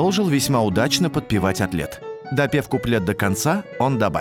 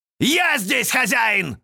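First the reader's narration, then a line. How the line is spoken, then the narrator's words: Sudden loud yell. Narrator (Russian): вдруг заорал форте пианино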